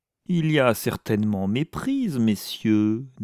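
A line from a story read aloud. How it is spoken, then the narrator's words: Unctuous. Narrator (French): dit-il d'une voix onctueuse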